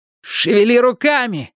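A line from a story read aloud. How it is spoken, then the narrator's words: Shout. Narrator (Russian): прокричал Майки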